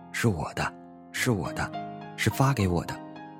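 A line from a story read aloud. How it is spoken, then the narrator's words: Old man murmuring. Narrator (Chinese): 老人喃喃地说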